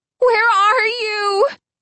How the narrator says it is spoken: Hannah called desperately

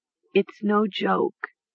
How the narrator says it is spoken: Mara repeated softly

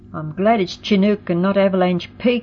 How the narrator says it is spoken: he exclaimed

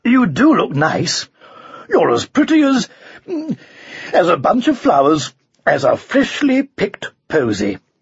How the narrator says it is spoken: he gasped

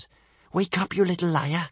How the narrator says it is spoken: whispered Kamikaze

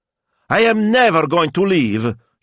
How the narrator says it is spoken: she cried

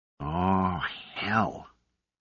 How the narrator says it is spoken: He sighed, in resignation

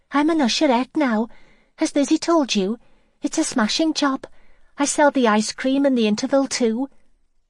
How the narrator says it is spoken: Irene said brightly

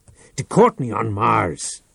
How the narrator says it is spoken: Reich shouted

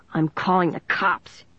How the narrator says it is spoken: he said in an angry growl

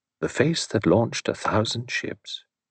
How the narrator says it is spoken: He quoted softly under his breath

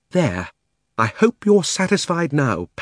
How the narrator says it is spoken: panted Polly

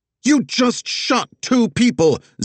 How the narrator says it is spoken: Zig shouted

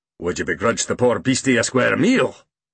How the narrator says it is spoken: He growled

